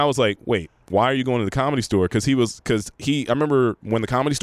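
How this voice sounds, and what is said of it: Usual voice. Nothing is said of it.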